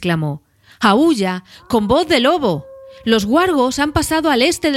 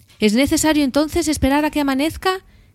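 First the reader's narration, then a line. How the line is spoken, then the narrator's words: Plain. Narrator (Spanish): dijo Gandalf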